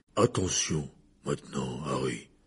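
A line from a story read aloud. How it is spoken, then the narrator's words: Low voice. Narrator (French): dit Hagrid à voix basse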